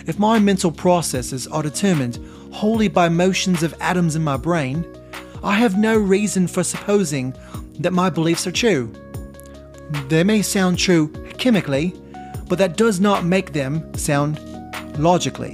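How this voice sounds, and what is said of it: Put-on British accent. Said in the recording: “let's do it like a British accent.”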